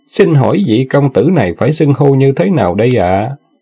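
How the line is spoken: Forced smiling, hidden anger. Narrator (Vietnamese): Trong lòng Tần Tiên Nhi thầm phẫn nộ, nhưng ngoài mặt thì vẫn làm ra vẻ mỉm cười nói

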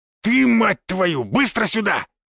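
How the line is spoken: Angry growl. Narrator (Russian): Прорычал лысый

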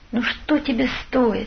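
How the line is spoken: Whisper. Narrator (Russian): шептали губы

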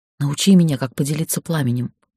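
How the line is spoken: Barely audible whisper. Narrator (Russian): прошептала еле слышно

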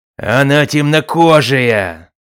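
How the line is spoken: Roared. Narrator (Russian): Считая этот довод исчерпывающим, проревел Бацами

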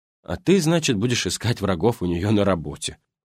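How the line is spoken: Wry snort. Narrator (Russian): хмыкнул я

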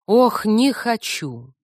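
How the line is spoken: Snorting female sigh. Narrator (Russian): Я вздохнула, получилось больше похожее на фырканье

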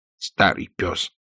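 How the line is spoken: Muttered. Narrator (Russian): буркнул Питер

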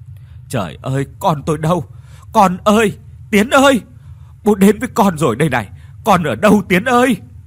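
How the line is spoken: Panting, mumbled words. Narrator (Vietnamese): Ông thở hổn hển rồi nói lẩm bẩm

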